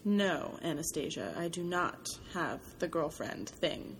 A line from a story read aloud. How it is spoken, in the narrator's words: he says softly